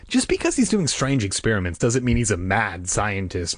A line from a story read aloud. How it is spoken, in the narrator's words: Margaret said sharply